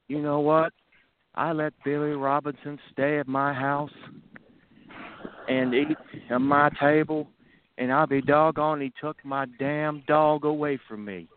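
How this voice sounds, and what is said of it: Terry Funk impression. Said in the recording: “I'll try to do the best Terry Funk impersonation I can ... Pretty spot on.”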